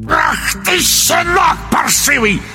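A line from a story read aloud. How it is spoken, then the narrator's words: Croaking bark. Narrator (Russian): рявкнул колдун весенней жабой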